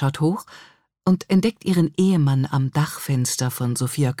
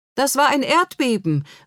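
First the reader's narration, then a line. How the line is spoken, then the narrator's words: Calling upward. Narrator (German): ruft Hilde nach oben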